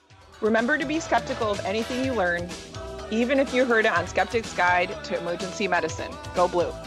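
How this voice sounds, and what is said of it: Thick put-on Michigan accent. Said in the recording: “in your thickest Michiganian accent”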